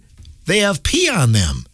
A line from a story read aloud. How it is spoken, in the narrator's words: exclaimed